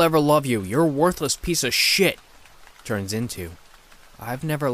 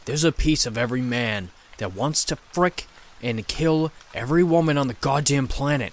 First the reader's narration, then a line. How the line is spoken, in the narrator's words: The demon growls